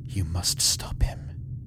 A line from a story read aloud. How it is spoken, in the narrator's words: the witch hissed into his ear